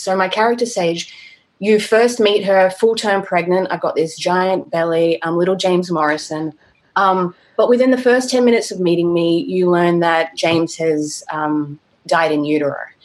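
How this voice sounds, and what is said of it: Adelaide accent. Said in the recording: “she's actually from Adelaide, so I get to keep my accent”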